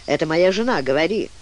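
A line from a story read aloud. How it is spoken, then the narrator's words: Brief, dry reply. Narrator (Russian): Фан-Фан-Тюльпан коротко, хотя и сухо ответил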